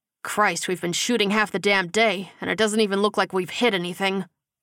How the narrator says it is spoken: Gilbert complained, with a groan

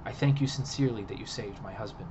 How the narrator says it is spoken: she said

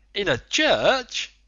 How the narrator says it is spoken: the Canadian exclaimed

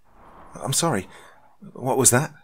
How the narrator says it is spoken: asked hesitantly

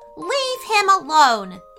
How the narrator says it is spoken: yelled Alexandria with a loud voice

